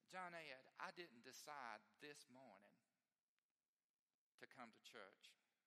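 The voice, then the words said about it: Heavy Southern US accent. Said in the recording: “now I'm giving her a heavy southern accent... in my mind, she's got a heavy southern accent”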